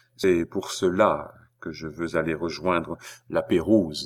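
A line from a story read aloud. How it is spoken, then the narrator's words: Plain. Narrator (French): dit-il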